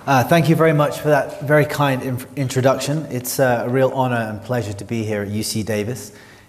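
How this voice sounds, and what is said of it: London English accent. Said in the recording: “from London, as you may be able to tell from the accent.”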